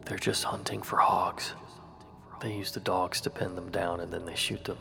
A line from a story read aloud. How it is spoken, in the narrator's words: my brother whispered